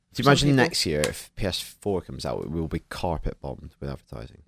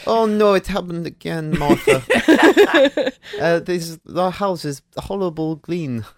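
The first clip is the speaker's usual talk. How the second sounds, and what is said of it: Put-on Liechtenstein accent. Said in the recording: “This is my Liechtenstein accent. ... It's good Liechtenstein accent. ... It is quite specific, a Liechtenstein accent.”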